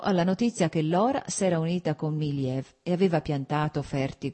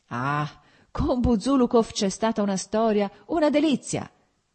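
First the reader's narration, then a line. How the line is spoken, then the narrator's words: Shouting. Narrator (Italian): gridò Petrichki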